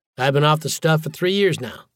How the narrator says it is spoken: I said

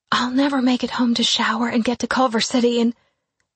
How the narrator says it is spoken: Blakely whispered

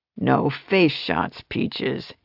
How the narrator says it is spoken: he growled

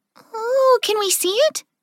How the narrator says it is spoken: Clover asked excitedly

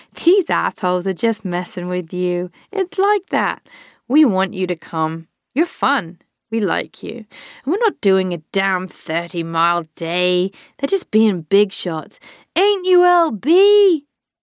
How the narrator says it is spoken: She laughed over at Lazy Bean

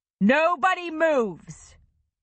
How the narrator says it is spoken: Oliver thundered in a voice that had once electrified audiences

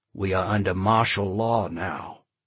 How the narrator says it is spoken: Charlie said quietly, breaking into the argument

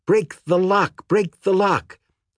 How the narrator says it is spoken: She was screaming

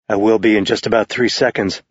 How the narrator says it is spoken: he murmured back

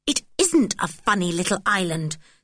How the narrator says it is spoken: said George fiercely

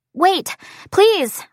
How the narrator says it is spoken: I shout

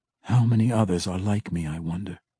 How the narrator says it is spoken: Drizzt whispered

